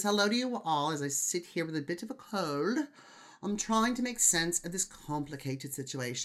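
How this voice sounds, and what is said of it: Bad put-on English accent. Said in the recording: “this horrible, horrible English accent”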